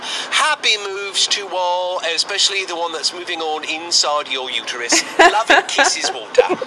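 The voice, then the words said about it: English accent. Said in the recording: “I actually want to know if that's his real accent because he kept it on point ... is he English?”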